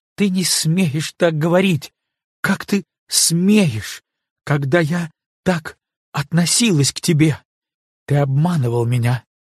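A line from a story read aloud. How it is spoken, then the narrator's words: Sobbing, abrupt harsh voice. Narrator (Russian): рыдая, заговорила отрывистым, резким голосом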